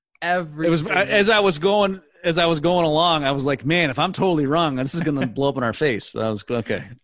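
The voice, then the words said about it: American accent. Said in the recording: “my accent I am a true American”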